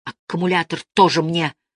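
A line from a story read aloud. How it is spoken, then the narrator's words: Angry shouting. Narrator (Russian): злобно накричал Сашка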